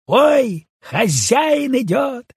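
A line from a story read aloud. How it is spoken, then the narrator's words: Feigned frightened cry. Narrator (Russian): закричала она с притворным испугом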